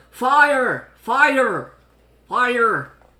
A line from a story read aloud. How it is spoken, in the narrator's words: yelling